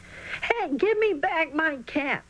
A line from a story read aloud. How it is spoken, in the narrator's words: Charlie was panting hard